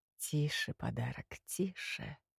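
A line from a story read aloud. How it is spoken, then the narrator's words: Purring in the ear. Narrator (Russian): мурлыкнула темнота на ухо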